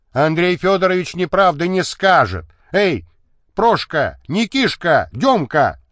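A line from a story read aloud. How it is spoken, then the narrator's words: Shouted. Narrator (Russian): закричал второй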